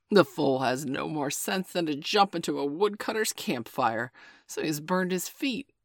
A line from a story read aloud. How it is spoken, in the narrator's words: said Father Wolf with a grunt